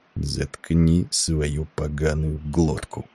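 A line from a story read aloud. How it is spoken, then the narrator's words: Fierce whisper. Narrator (Russian): послышался свирепый шепот Петерсона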